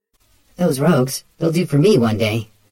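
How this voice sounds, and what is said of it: Chiming character voice. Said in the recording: “in his chiming voice.”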